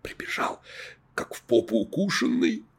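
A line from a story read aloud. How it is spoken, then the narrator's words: Whispered gossip. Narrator (Russian): рассказывала шепотом Светочка, помощница секретаря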